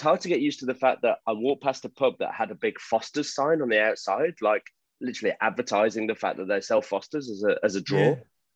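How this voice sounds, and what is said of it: Thick English accent. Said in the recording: “you've lost your Aussie accent already, and you've gone back to the English accent. It's very thick.”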